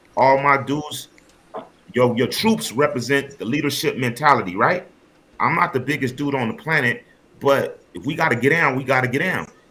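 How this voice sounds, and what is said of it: Californian American English accent. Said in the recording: “Because I'm from California. You can tell by my accent.”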